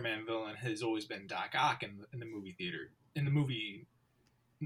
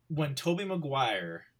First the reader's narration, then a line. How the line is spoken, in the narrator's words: I cried